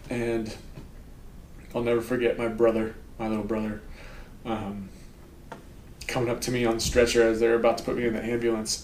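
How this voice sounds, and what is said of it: Emotional, strained voice. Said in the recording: “I'm starting to get a little emotional”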